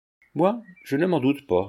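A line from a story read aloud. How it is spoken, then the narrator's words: Curt retort. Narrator (French): répliqua sèchement Mirande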